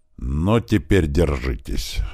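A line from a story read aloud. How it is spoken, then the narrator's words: Angry. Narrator (Russian): зло сказала Чаки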